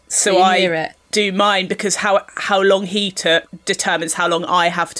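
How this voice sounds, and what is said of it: Usual voice. Nothing is said of it.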